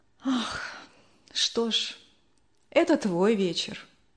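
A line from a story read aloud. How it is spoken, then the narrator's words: Sighing. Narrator (Russian): вздохнула мама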